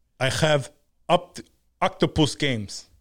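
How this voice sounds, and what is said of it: Bad put-on Middle Eastern accent. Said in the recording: “Is he Middle Eastern? ... That was a bad accent. ... He's Russian. ... Is Slavic? ... he really did pull the Middle Eastern accent.”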